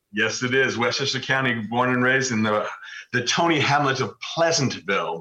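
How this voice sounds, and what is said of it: New York accent. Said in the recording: “a little bit of an accent, it's it's New York”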